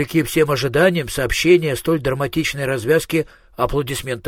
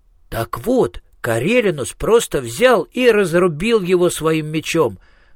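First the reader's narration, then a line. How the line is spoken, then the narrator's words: Exclaiming. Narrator (Russian): воскликнул Министрель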